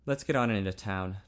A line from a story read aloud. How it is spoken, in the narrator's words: Ted said stiffly